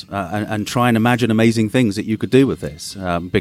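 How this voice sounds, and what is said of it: English accent, southern and eastern England. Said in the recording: “the absolute best accent of anyone that I will interview here at Consensus, without a doubt. It's fantastic. ... a combination of different places in the UK, the south of England, the east of England, and now in Cambridge”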